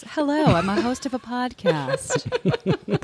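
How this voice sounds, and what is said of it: Mock podcast-host voice. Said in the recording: “this is my best podcast voice. ... Pretty convincing.”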